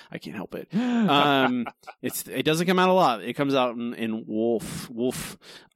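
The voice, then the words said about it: Philly accent. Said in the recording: “the Philly accent given to me by the Jersey accent, Philly accent given to me by my parents”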